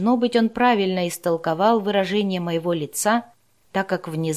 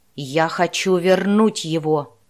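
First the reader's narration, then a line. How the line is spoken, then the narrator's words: Growling. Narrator (Russian): прорычал Рика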